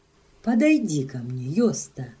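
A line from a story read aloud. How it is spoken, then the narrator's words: Woman exclaiming. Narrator (Russian): воскликнула она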